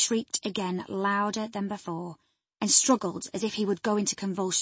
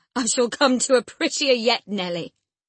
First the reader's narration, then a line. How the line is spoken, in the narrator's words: laughed the misguided man, recovering his hardness